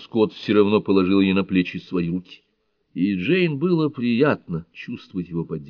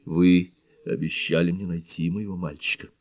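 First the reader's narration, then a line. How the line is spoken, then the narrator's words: Quiet, bitter. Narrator (Russian): Душевная горечь его прикосновения все же не рассеяла, она негромко произнесла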